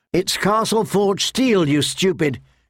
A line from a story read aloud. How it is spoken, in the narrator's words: snapped